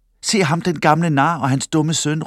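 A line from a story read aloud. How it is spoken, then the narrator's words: Jeering shout. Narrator (Danish): råbte en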